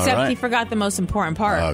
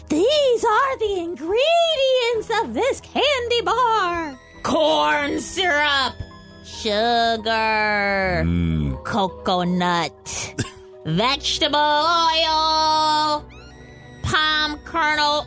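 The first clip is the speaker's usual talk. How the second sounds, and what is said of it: Witch character voice. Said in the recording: “I get to use my witch voice.”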